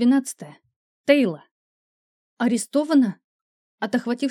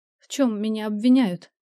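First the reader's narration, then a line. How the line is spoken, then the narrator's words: Trembling voice. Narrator (Russian): спросила я дрожащим голосом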